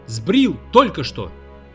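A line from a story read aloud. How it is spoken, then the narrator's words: Shouted. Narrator (Russian): крикнул Гарп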